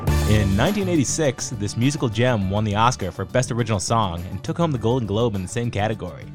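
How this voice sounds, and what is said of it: Imitates a famous radio host's voice. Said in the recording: “going to do the Casey Kasem voice... One of the most iconic voices in history. I got to mimic him... You don't sound nasally at all.”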